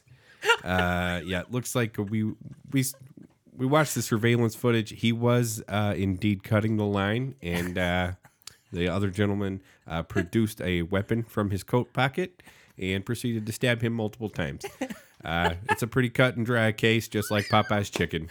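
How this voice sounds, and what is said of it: Put-on Midwestern accent. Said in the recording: “Oh, that fucking Midwestern accent.”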